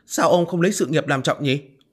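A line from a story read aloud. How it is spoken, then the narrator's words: Angry wife. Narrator (Vietnamese): tức giận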